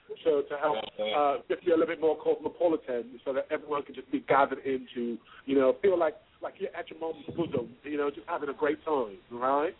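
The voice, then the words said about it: Put-on British accent. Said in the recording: “I have to go into my British accent now”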